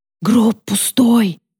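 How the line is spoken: Whisper. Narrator (Russian): прошептала Сара

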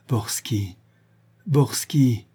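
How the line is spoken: Stammering. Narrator (French): bégaya Véronique

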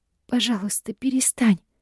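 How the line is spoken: Hoarse, breathless plea. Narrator (Russian): хрипло выдыхаю я

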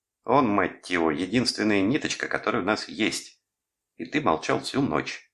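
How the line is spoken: Snapping. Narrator (Russian): огрызнулась Деб

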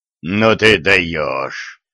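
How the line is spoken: Hoarse wheeze. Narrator (Russian): просипел Дон

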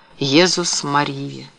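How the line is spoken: Shocked muttering. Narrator (Russian): потрясенный Карл пробормотал

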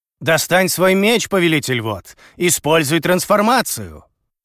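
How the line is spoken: Shouting from below. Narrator (Russian): Крикнул мне снизу Дао

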